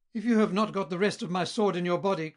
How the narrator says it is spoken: cried Lamport excitedly

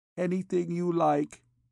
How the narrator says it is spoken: she replied feebly

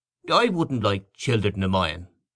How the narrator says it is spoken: he said

